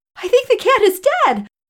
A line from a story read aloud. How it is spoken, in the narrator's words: couldn't contain the bubbly laugh that erupted as I said